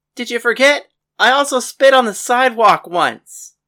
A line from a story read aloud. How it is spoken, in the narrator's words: Paris yelled